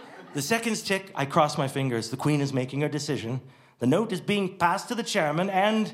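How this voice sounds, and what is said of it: Usual voice. Nothing is said of it.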